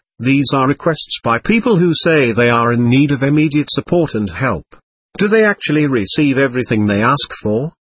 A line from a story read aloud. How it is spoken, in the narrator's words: asked Vicente